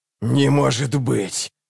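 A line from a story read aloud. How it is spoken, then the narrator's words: Doll's hiss. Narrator (Russian): прошипела кукла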